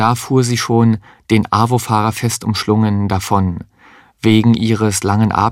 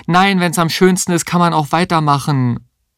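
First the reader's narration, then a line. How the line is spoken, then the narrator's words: Calling after someone outdoors. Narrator (German): lief er auf die Straße und rief ihr hinterher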